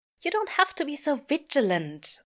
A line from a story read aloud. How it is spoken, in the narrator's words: Aziraphale snaps at them